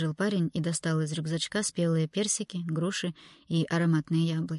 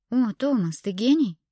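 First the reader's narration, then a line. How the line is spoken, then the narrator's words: Exclaiming. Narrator (Russian): воскликнула она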